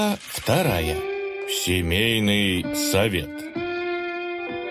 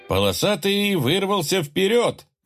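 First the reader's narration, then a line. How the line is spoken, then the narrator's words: Cheerful race commentary. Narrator (Russian): весело начал комментировать забег Маракуда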